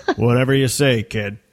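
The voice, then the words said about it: Han Solo impression. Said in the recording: “my best Han Solo impression”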